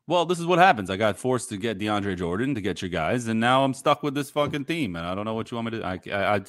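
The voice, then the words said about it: Put-on mixed Brooklyn British accent. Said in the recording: “I get into, like, the Brooklyn accent all of a sudden, and I'm not even from Brooklyn, but I'm trying to do the British thing ... That's a great Brooklyn, New Zealand British accent.”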